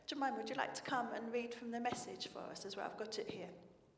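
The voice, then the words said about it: Hoarse, strained voice. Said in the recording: “I'm losing my voice a little bit ... Too much shouting all day”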